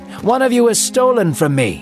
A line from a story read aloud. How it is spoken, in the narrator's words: he shouted